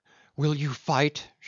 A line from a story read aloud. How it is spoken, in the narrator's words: she cried